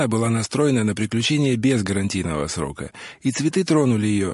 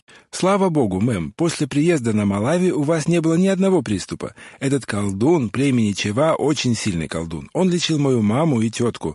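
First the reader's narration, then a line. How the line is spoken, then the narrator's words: Cheerful agreement. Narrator (Russian): радостно закивала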